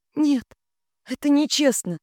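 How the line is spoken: Squeak. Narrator (Russian): пискнула я

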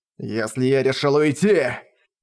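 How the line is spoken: Growled. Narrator (Russian): прорычал он

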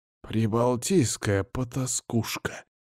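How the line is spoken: Barely audible defeated mumble. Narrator (Russian): еле слышно пробубнил Мефодий перед тем, как потерпеть поражение и сдаться

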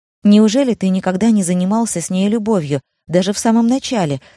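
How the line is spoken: Plain question. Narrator (Russian): спросила Джин

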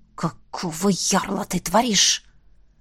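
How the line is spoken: Hissing. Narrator (Russian): продолжал шипеть

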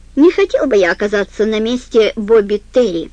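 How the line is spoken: Plain. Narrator (Russian): сказал он

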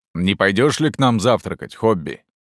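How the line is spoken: Plain. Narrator (Russian): спросил Алан

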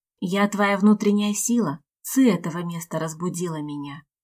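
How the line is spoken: Quiet hissing creature. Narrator (Russian): тихо прошипело создание

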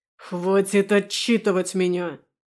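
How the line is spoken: Growl. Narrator (Russian): прорычал

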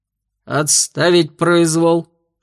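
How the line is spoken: Growling. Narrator (Russian): рыкнул инспектор Вульф

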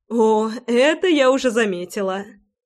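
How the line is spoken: Short laugh. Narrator (Russian): Хохотнула Ратти

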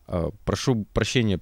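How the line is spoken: Mumbled. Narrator (Russian): пробормотал тот

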